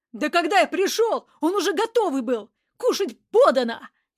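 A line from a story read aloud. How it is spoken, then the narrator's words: Furious yelling. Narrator (Russian): яростно заорал Мерзляков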